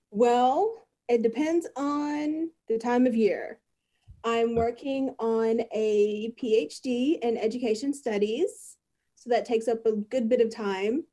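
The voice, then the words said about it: Texas accent. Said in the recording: “I'm originally from North Texas. I did live in East Texas for a little bit, hence my really unique accent”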